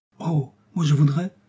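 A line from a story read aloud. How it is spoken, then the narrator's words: Young girl exclaiming. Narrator (French): s'écria Pervenche, jeune personne de 10 ans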